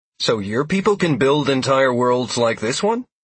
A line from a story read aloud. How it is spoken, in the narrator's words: I asked in a hopeful tone